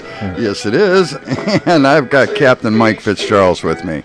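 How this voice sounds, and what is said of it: Put-on radio announcer voice. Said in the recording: “in my best announcer voice.”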